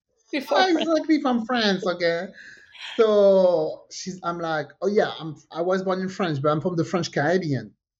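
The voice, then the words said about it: French accent. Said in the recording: “she noticed the accent ... It's a French accent.”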